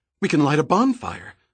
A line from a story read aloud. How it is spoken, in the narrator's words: Summer suggested excitedly